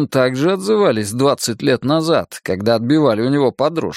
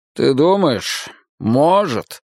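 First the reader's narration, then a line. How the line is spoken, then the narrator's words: Sighing. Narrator (Russian): вздохнул майор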